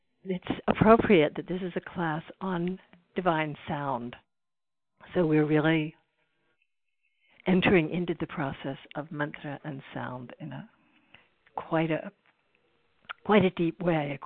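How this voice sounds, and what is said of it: Hoarse, soft voice. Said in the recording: “I'm a little bit hoarse today, so I'm going to be talking in a softer voice,”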